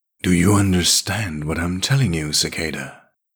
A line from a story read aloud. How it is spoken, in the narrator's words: insisted the discrepancy in a coldly demented tone